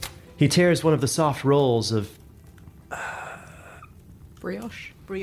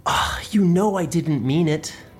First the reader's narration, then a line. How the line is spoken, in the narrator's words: Baron whines